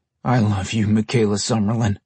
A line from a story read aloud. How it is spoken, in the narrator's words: Brian murmured